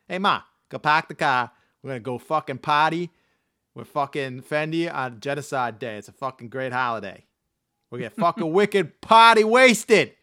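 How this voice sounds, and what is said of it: Put-on Boston accent. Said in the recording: “Sorry about my Boston accent.”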